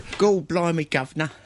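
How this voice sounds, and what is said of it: Put-on Cockney accent. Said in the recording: “Cockney accents”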